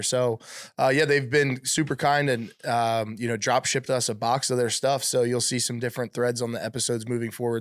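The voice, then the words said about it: Sick-sounding voice. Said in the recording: “I'm obviously dealing with some kind of sickness. I apologize for my voice.”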